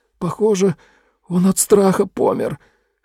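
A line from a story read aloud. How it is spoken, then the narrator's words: Hoarse. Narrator (Russian): хрипло промолвил он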